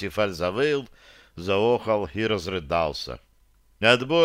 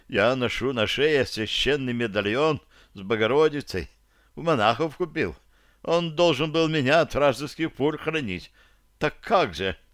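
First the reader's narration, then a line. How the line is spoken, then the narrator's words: Sudden moan. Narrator (Russian): неожиданно простонал Парсифаль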